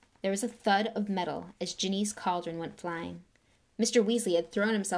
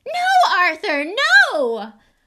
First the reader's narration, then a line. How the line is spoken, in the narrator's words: Weasley was shrieking